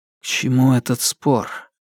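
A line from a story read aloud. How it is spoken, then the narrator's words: Quiet. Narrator (Russian): тихо проговорил он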